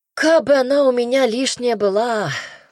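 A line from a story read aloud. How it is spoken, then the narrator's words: Sighing. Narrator (Russian): вздохнула я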